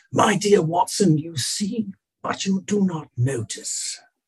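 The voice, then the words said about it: Put-on English accent. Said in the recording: “my apologies for the English accent ... Oh, that was good ... It was beautiful ... It was excellent.”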